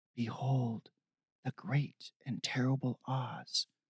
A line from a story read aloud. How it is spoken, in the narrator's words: Steve whispered to himself